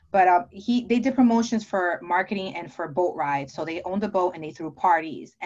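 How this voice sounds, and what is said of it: New Jersey accent. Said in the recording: “I'm from New Jersey. I'm sure you can tell by my accent.”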